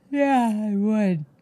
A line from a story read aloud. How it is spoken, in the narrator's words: yawned